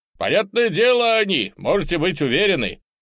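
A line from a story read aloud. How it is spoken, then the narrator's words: Shouted reply. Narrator (Russian): Кто-нибудь из сопровождавших нас кричал в ответ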